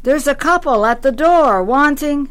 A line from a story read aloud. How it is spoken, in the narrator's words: shouted